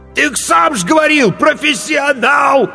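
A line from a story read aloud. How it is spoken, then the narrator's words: Desperate shout. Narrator (Russian): отчаянно выкрикнул корчмарь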